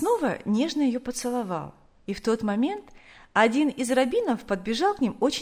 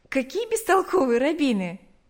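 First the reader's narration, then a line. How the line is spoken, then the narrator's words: Laughing. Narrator (Russian): засмеялась она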